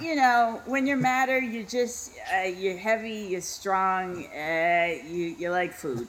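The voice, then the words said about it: Put-on Boston accent. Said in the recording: “I really feel like ... from Boston.”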